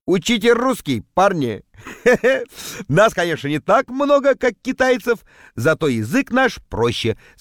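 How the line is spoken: Laughing. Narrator (Russian): смеялся я

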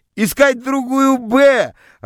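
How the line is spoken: Joyful group shouting. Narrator (Russian): радостно кричали мне из класса

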